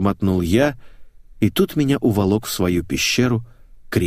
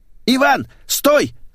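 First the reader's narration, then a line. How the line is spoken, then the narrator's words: Man shouting. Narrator (Russian): закричал толстяк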